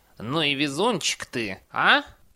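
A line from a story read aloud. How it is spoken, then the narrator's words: Vague grunt. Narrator (Russian): Неопределенно хмыкнул Альберт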